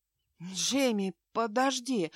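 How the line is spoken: Breathless. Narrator (Russian): выдохнула Аврора

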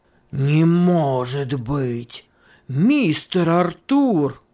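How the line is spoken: Exclaimed. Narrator (Russian): воскликнул Симонс

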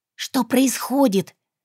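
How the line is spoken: Hissed whisper. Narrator (Russian): процедила шепотом

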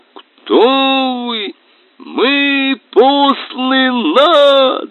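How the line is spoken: Roared through a tube. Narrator (Russian): старпом снова проревел в трубу

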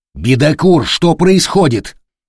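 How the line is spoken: Growl through speaking tube. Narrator (Russian): прорычал в переговорную трубку Дорофеев

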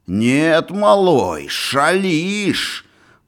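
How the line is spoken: Hissing. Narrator (Russian): Прошипел он

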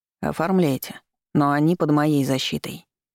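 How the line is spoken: Calm, firm repetition. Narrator (Russian): спокойно и твердо повторил Дэн

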